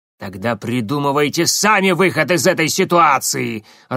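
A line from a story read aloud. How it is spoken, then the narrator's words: Irritated bark. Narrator (Russian): раздраженно рявкнул Коинов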